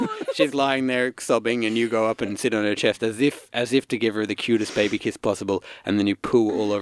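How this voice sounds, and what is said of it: Usual voice. Nothing is said of it.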